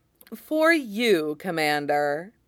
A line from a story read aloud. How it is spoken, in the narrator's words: says merrily